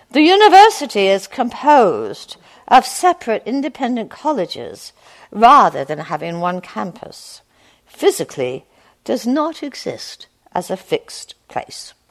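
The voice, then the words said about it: Put-on English accent. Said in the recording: “I'll do my English accent.”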